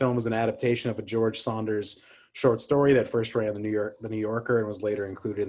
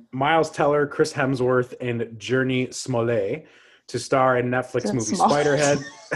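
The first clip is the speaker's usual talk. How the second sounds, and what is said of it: Put-on French accent. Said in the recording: “Why do you make everything like a French accent?”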